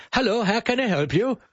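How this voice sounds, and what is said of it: Imitated German accent, somewhat Scandinavian. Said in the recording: “a blonde from Germany ... I'm not sure that accent is perfect ... The English wasn't so bad, it was a bit Scandinavian.”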